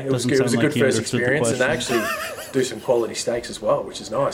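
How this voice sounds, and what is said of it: Australian accent. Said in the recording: “Is that actually a proper accent? ... I actually am from Australia.”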